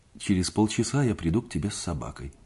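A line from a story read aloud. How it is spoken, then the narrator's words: Plain. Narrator (Russian): сказал я Пат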